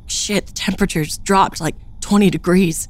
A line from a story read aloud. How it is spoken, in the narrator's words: Greg sputtered through chattering teeth